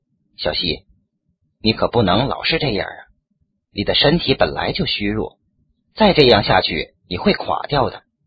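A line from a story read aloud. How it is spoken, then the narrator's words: Soft, gentle. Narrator (Chinese): 我 轻声道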